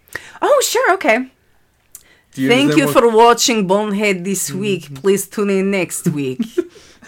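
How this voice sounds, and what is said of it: Put-on Russian accent. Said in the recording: “in your wonderful Russian accent ... now it sounds more like the lady from... Glow ... it sounds like she's doing an imitation of that”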